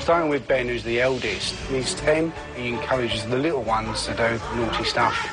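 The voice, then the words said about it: British accent. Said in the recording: “you're going to have to navigate the British accents”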